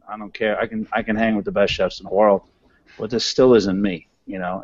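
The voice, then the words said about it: New York accent. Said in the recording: “a street kid from New York... I was always hiding my accent... I'm going to talk the way I want to talk”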